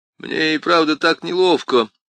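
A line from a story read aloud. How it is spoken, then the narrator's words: Hoarse mutter. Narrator (Russian): хрипло пробормотал детектив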